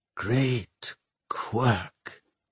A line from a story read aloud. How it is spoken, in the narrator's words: Pomeroy whispered